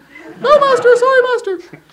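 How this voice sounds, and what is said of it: Cringing falsetto voice. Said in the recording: “cringes in falsetto”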